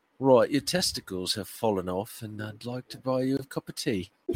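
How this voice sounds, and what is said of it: Put-on British accent. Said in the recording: “hearing bad news from someone in a British accent”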